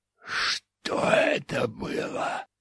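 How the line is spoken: Hoarse rasp. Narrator (Russian): прохрипел он

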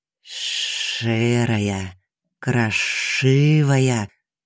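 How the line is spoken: Snake hissing. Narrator (Russian): прошипела змея

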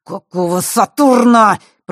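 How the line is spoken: Surprised growl. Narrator (Russian): прорычал Алекс, но, как ни старался, не смог скрыть удивление в голосе

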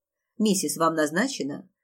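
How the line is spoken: Cold inquiry. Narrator (Russian): холодным голосом осведомилась она

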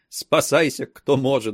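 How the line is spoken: Burst out laughing. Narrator (Russian): прорвалась хохотом

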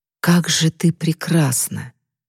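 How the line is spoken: Whisper. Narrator (Russian): шепот скользнул по ее коже

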